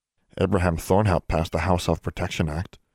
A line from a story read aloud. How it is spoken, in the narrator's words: Quimley muttered